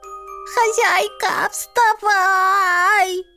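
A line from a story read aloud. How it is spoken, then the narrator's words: Cat yelling into ear. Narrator (Russian): Орал котик мне на ухо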